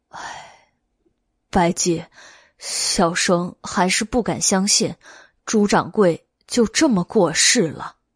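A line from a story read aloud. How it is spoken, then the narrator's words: Sighing. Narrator (Chinese): 袁耀感叹道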